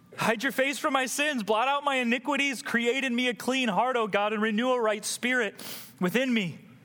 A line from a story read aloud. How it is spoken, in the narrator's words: he cries out